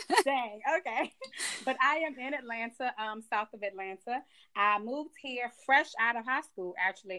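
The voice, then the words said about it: Georgia Southern twang. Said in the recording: “You got that Georgia twang now ... I think I picked up this little Georgia twang.”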